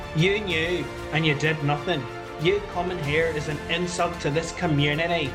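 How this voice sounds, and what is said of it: Poorly done put-on accent. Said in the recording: “Apologies for the poor accent.”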